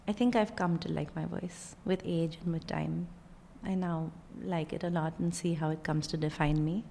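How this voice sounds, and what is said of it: Indian English accent. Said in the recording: “originally from Bombay, India ... people are perplexed by my accent and my voice”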